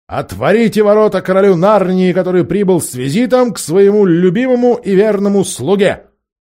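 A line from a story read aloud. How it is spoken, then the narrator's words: Trumpeter shouting. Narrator (Russian): Трубач Каспиана крикнул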